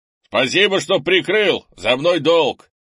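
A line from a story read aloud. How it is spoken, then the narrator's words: Shouted. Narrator (Russian): прикрикнул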